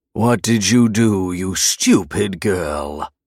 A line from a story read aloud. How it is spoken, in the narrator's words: He growled, seething